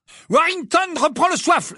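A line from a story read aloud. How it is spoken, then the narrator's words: Exclaiming. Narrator (French): s'écria Lee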